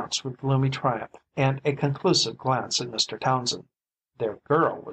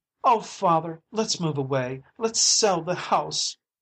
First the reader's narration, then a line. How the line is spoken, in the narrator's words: cried Adriana in a panic-stricken tone